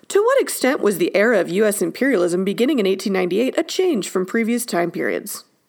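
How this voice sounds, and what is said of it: Formal AP teacher voice. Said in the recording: “in my AP teacher voice”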